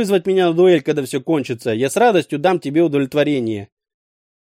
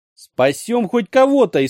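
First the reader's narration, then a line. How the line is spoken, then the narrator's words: Frenzied shout. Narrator (Russian): исступленно выкрикнул я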